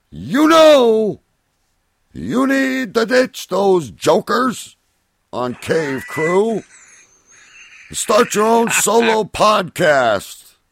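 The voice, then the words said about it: Imitates another person's voice. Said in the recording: “in my best Alex voice, but I don't want to hurt anyone's ears”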